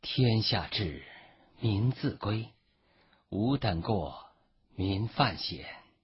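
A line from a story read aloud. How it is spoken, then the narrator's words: Calm, indifferent. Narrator (Chinese): 刘福陵只是淡淡的说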